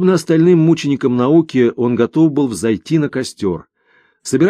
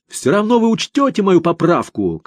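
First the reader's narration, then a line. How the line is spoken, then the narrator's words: Shouted after someone. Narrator (Russian): крикнул ему вдогонку Крылов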